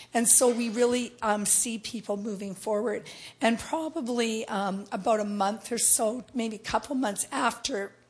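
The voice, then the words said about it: Strained, hoarse-sounding voice. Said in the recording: “sorry about my voice,”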